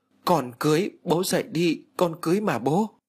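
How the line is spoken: Loud desperate wailing. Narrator (Vietnamese): Cô ... gào lớn

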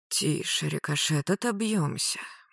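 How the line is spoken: Gloomy mutter. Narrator (Russian): буркнул Магарыч, мрачнее на глазах

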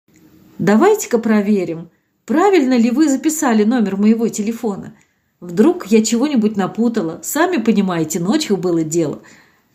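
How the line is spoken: Spoken aloud. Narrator (Russian): вслух произнесла

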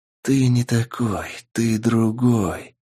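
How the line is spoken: Cold emotionless whisper. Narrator (Russian): прошептал холодный, безэмоциональный голос

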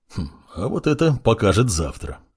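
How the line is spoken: Wizard's wry snort. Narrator (Russian): хмыкнул маг

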